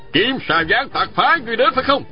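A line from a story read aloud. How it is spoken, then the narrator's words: Demanding shout. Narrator (Vietnamese): Đồng Thanh quát hỏi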